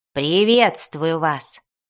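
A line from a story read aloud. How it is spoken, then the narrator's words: Deep, extremely polite voice. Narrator (Russian): пробасил Бреннер таким тоном, который в его устах всегда означал крайнюю степень вежливости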